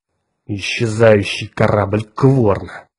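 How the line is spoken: Through clenched teeth. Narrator (Russian): сквозь зубы процедил Кертис

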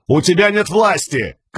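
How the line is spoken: Shouted. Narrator (Russian): крикнул Газ

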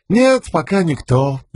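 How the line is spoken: Cheerful reply. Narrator (Russian): весело отозвался Шут

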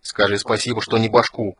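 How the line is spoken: Snort. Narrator (Russian): фыркнул Флинт

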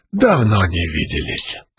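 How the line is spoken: Whisper. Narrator (Russian): прошептал он

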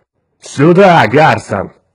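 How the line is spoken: Roared. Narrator (Russian): взревел Улькворн

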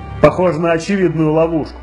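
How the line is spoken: Plain. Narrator (Russian): говорит Абаддон

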